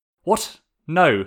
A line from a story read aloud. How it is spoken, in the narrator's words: Sokka snapped